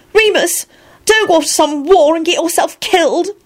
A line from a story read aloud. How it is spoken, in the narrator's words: Elizabeth blurted out unhappily